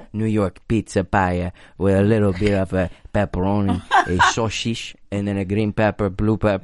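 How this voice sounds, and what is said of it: Put-on Armenian-Italian sounding accent. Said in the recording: “I'm not sure what accent that was. It's like an Armenian ... with a little bit of Italian.”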